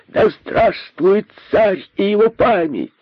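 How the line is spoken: Group shouting. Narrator (Russian): закричали они

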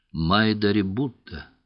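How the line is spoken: Plain. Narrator (Russian): ответила она

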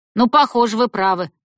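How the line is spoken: Loud old woman agreeing. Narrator (Russian): громко согласилась старуха

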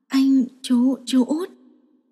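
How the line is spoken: Stammering. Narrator (Vietnamese): Cố Dư lắp bắp

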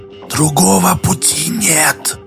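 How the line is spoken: Distant rustling whisper from below. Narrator (Russian): сказал Дола, и голос его шептал, шелестел откуда-то снизу, издалека

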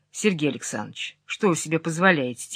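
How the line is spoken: Quiet. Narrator (Russian): тихо сказал я ему

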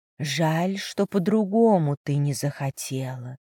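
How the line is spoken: Whisper. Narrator (Russian): прошептала девушка

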